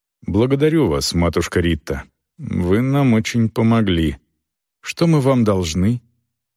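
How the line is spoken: Sighing. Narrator (Russian): Селдон вздохнул и сказал

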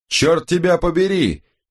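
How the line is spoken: Roar. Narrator (Russian): проревел Томас Бленке

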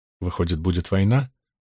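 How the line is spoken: Muttered. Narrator (Russian): пробормотал Абл

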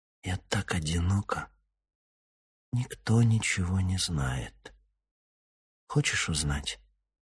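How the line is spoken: Intimate whisper. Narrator (Russian): прошептала

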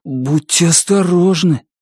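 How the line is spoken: Agitated. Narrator (Russian): Вьюн взволнованно сказал

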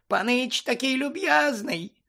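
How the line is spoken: Squeaky voice. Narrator (Ukrainian): запищав він

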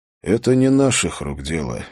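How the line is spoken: Sigh. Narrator (Russian): вздохнул Холт

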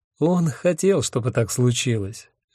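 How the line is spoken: Gentle. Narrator (Russian): мягко сказал Аллах

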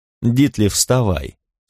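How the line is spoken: Calm. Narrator (Russian): спокойно сказала Кимми

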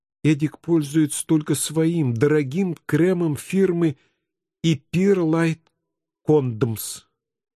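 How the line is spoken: Trembling voice. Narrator (Russian): дрогнувшим голосом пояснила Памелла

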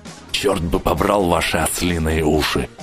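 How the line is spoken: Grumbled. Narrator (Russian): буркнул Рич

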